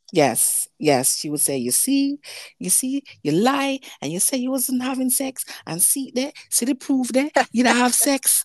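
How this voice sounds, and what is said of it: Jamaican accent. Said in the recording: “what kind of accent is that, that's a Jamaican accent ... I am Jamaican born.”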